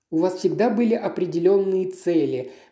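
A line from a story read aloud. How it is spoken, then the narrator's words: Agitated speech. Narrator (Russian): взволнованно заговорила мисс Рич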